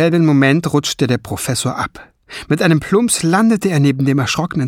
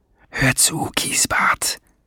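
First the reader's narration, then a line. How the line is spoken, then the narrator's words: Whispering in ear. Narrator (German): flüsterte er dem kleinen Kerl ins Ohr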